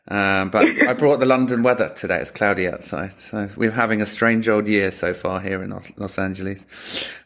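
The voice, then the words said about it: London accent. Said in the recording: “I'm in LA with my London accent.”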